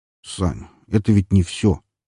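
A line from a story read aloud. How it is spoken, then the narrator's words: Quiet interrupting. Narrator (Russian): перебил он меня все тем же негромким голосом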